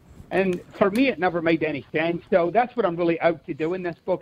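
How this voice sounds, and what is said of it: Scottish accent. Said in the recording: “You have a great accent. ... I recognize the Scottish really? Accent when I hear it.”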